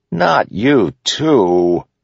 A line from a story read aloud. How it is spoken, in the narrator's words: Kaladin said, groaning